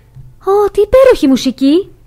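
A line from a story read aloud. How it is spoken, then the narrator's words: Exclaimed. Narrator (Greek): αναφώνησε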